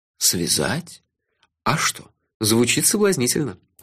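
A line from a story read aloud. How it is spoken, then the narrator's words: Languid seductive purr. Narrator (Russian): томно промурлыкал я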